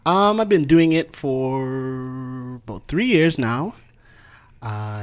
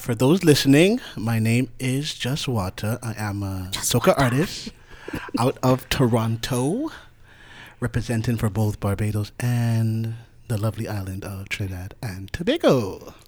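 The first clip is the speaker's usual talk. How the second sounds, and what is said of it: Smooth, sexy radio voice. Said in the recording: “He has his radio voice on, ladies and gentlemen. You know, sexy for you. ... quiet storm.”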